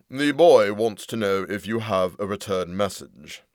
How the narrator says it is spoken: said Fisher

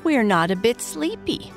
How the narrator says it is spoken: cried all the young raccoons together

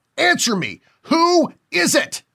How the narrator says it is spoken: screaming once more

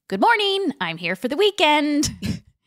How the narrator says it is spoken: Kimmy cheerfully exclaiming

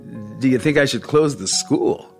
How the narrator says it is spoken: David laughed bleakly

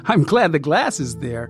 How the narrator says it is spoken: said, giggling

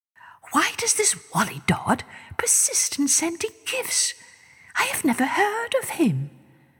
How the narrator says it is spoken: She whispered to her Prime Minister

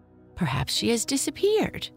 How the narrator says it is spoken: Pierre said with a giggle

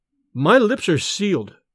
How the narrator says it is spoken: he said

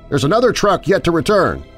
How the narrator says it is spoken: shouted

